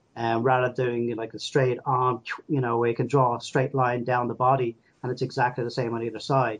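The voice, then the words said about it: Irish accent. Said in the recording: “the one with the Irish accent”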